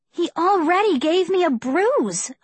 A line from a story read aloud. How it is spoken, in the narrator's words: I cried